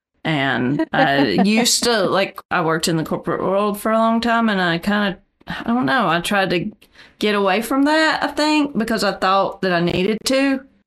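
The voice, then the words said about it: Strong Southern US accent. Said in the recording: “you can probably tell from my accent, I'm super Southern”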